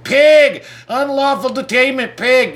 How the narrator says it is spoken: I start screaming

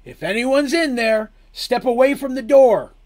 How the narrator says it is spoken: called out Maeve

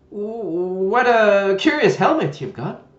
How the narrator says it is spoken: she said cheerfully

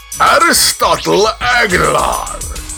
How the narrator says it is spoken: he shouted

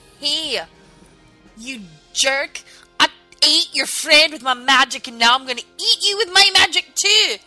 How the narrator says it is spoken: I'm going to shout at that zombie and say

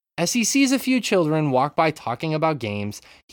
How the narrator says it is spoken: he yells

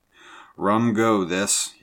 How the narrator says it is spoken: grumbled

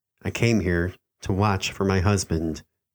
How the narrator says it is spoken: she said

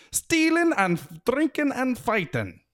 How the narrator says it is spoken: shouted the blue men cheerfully

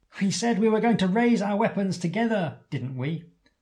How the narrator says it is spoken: You yell happily

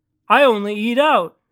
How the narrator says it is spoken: said Joseph

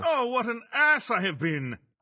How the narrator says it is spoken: I exclaimed

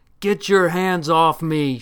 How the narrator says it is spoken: shouted the Phoenician

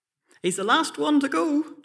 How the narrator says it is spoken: John shouted

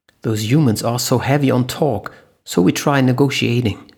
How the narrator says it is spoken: Herbert said

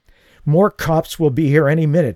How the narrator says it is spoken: wheezed

